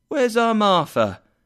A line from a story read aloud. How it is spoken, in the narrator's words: cried Bob Cratchit